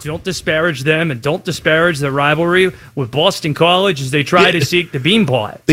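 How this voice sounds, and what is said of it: Attempted Boston accent. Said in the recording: “Is that you people trying to do a Boston accent?”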